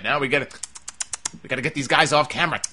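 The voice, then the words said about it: Kevin Dunn impression. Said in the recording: “my Kevin Dunn impression.”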